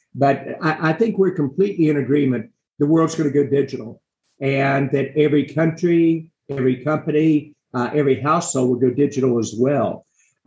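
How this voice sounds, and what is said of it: West Virginia accent. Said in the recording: “I talk with a West Virginia accent”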